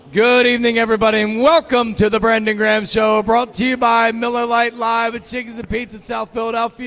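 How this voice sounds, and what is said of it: Worn-out, strained voice. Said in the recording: “my voice is a little bit shot tonight”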